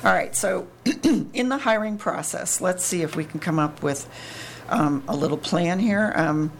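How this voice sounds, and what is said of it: Hoarse, fading voice. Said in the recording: “Sorry, I'm losing my voice.”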